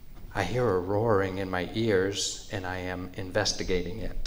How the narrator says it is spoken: she answered timidly

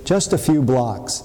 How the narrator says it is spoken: Carolyn said cheerfully

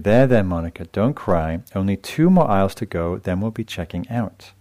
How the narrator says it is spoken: the mother says softly

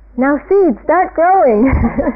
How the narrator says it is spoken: Toad said loudly

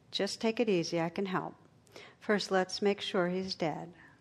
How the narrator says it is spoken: The operator, in a calm, soothing voice, says

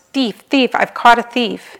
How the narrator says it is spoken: he screamed at the top of his lungs

